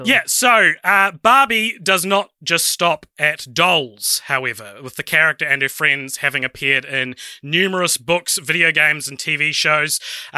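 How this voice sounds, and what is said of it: New Zealand accent. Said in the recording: “you've got the best accent in the world, the New Zealand accent”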